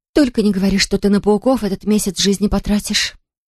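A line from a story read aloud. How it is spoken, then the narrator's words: Horrified whisper. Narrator (Russian): С ужасом прошептала я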